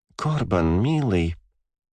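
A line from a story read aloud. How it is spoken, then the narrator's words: Mutter. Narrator (Russian): пробормотал я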